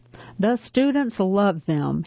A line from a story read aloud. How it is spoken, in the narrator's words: he said